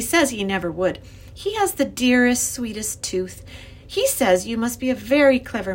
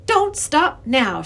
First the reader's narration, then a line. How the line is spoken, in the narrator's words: she said in a clear voice